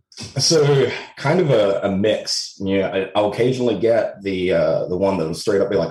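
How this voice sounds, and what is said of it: Mixed Australian and Texan American accent. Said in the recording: “your accent. It's a unique blend ... it does sound pretty funky. There's definitely some Australian twangs in there, but the old US accent ... you're in Texas ... I can tell a bit of that's coming through as well ... It's all over the shop”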